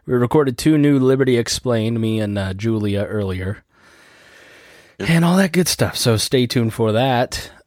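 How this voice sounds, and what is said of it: Weak, tired-sounding voice. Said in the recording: “my voice sounds weak ... I definitely feel like I'm sick ... if I sound weak”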